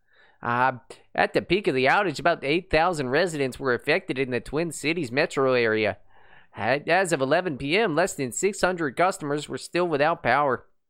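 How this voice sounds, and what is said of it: Put-on Hispanic-Minnesotan accent. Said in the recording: “I don't know if that's a Minnesotan accent... It sounded like a Hispanic with a slight Minnesota accent.”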